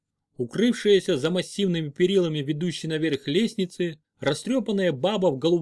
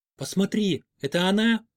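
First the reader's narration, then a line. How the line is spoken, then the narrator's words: Ringing whisper. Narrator (Russian): спросил меня Барух звенящим шепотом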